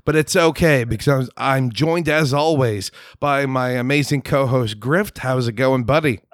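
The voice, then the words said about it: Hoarse, sick-sounding voice. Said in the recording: “I am sick this week. My voice has just been strangled by an unknown supernatural being ... you have a sentient tumor in your throat”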